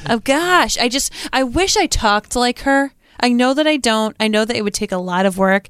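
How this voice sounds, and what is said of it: Nasal Rhode Island accent. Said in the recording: “that like nasal Rhode Island accent”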